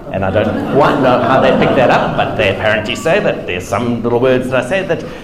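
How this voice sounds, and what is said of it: South African Durban accent. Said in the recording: “this is not just a South African accent, but it's more precisely a Durban accent as well”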